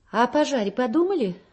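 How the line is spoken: Very dry. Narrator (Russian): очень сухо продолжает Клава

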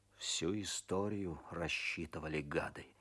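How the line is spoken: Muttering through teeth. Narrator (Russian): бормочет сквозь зубы Козлов

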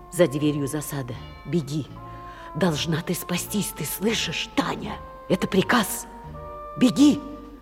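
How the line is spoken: Mouthed whisper. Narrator (Russian): И прошептал одними губами

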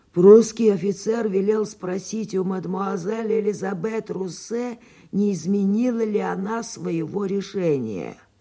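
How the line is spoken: Raspy. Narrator (Russian): господин Фолянви прохрипел

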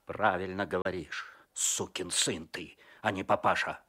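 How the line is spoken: Angry. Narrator (Russian): зло сказал Козлов

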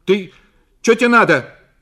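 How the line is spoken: Startled shout on waking. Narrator (Russian): крикнула Зина, проснувшись

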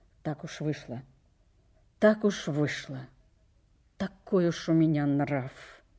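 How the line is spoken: Muttering. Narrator (Russian): Он пробормотал

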